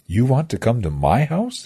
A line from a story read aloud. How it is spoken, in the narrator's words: he asked